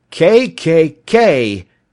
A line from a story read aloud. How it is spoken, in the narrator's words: shrieked